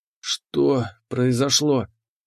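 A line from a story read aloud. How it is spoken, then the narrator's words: Hoarse croak. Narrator (Russian): прохрипел я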